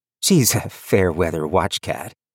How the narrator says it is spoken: Viv chuckled

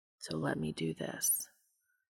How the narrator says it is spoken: the angel whispered quietly

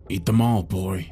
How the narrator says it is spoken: he said gruffly

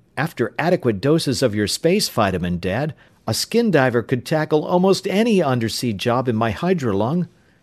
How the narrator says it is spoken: Tom exclaimed

